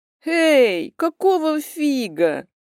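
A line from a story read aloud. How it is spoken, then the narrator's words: Capricious drawl. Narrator (Russian): капризно протянула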